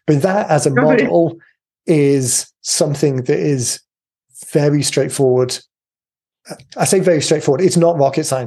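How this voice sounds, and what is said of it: Strained, fading voice. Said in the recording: “I'm losing my voice, which is usually a sign that I've talked enough.”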